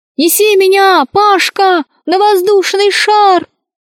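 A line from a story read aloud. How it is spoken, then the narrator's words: Muffled squeak. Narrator (Russian): пискнула она изнутри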